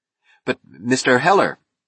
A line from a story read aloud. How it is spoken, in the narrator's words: Snite stammered